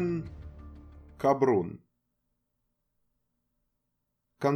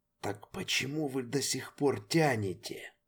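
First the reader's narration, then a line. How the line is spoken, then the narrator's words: Quiet near-whispered growl. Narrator (Russian): Тихо, почти шепотом, прорычал мастер-контролер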